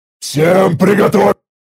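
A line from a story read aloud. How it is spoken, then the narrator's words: Choked terrified roar. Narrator (Russian): Попытался взреветь я, но слова буквально застряли у меня в горле от того ужаса, что предстал перед моими глазами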